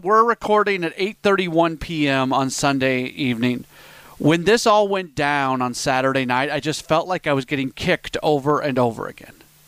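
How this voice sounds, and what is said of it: Frustrated tone of voice. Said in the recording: “I don't know if you can tell in my voice. I'm so frustrated with this”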